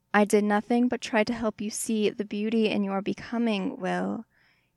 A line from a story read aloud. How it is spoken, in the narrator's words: said, his voice wavering